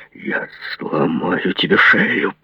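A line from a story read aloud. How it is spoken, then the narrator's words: Growling. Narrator (Russian): прорычал он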